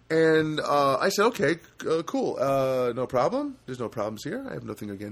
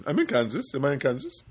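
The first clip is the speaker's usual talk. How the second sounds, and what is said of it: Rough imitated Indian accent, questioning tone. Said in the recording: “Indian accent. I don't think I do a very good Indian accent... I'll do an approximation of one... He sounds like he's asking a question.”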